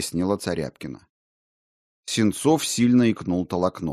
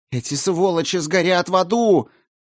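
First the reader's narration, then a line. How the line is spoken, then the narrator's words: Shouted. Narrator (Russian): выкрикнула Царяпкина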